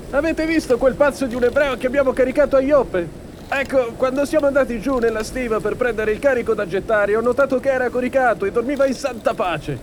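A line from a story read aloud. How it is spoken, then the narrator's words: Shouted. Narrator (Italian): gridò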